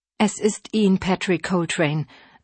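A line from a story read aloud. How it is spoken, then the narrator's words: Calm. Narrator (German): sagte sie ruhig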